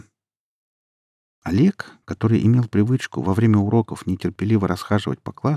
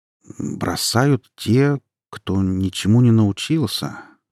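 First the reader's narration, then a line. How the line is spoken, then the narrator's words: Slow speech. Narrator (Russian): медленно проговорил он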